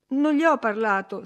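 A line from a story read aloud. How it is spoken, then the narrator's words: Boy sobbing. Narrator (Italian): singhiozzò il ragazzo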